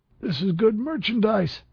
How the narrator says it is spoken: the dealer squealed

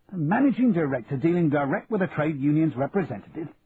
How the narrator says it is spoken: barked Charlie

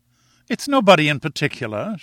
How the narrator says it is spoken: she explained, laughing at the expression of my face

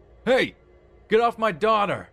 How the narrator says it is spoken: my dad in the distance yell

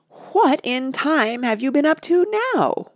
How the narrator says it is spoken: wailed

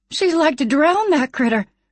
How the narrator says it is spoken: the homesteader woman exclaimed

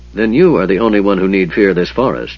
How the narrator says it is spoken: Sturm told the mage coldly

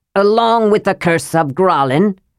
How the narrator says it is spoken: Railgar shouted

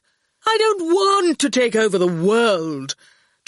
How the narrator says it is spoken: Torquil said irritably

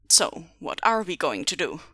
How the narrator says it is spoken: asked quietly

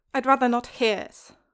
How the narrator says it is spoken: Huck snaps

